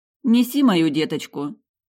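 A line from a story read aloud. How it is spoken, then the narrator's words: Affectionate. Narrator (Russian): ласково сказала я няньке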